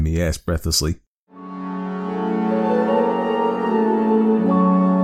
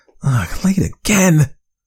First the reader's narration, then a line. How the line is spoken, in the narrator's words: She cried out in distress